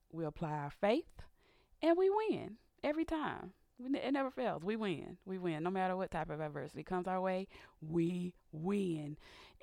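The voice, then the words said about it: Raspy voice. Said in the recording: “my voice is a little raspy. I've been having some sinus issues this week”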